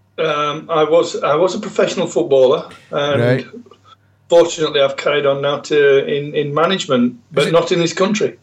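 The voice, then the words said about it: South Yorkshire accent. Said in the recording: “What is your accent? ... I'm from South Yorkshire. ... South Yorkshire lad.”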